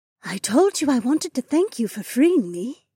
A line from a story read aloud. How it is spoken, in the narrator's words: Remna cooed